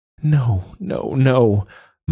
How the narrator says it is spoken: Myla moaned

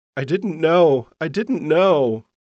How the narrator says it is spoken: cried the whole time, saying

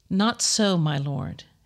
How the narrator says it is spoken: Hannah replied

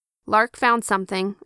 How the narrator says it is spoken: said

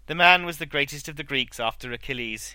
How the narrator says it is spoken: he said

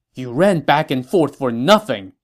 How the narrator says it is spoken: said angrily

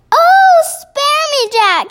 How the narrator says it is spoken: he yelled

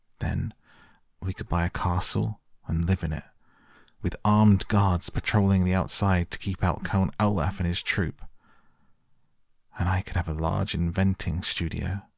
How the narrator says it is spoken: Violet said wistfully

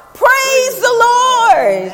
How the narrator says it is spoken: she shouts

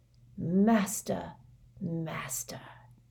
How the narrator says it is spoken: he murmured

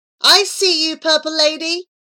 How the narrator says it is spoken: shouted Abu

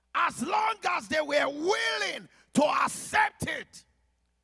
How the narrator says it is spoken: the devil kept roaring

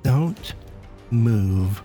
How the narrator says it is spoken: cooed

